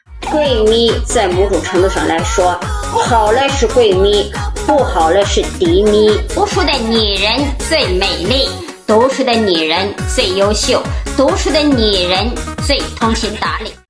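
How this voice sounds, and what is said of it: Strange, distinctive regional accent. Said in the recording (Chinese): “更重要的是他就是奇妙的口音”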